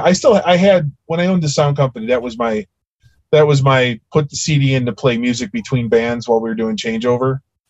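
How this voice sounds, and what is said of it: Chicago accent. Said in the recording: “I'm a Chicago kid, for those of you that that can't tell from my accent.”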